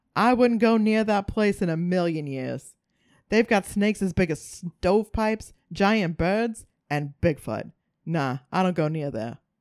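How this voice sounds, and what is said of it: Put-on regional accent. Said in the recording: “That was a fantastic accent... It was my worst ever, I think... No, it was so good.”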